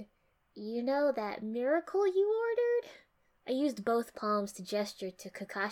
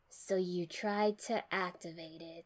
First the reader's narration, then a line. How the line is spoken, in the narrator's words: Tsunade said flatly, not even a question